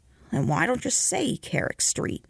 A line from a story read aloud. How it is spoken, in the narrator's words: the conductor grumbled